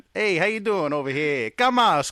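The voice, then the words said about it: Put-on Italian accent. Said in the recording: “I can also offend my wife with my Italian accent.”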